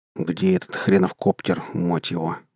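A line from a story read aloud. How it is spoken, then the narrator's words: Grumbling. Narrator (Russian): пробурчал Серж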